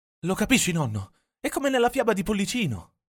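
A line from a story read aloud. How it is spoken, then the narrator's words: Exclaiming. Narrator (Italian): esclama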